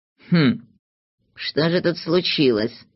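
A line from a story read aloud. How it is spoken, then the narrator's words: Confused mumbling. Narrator (Russian): растерянно бормотал Знайка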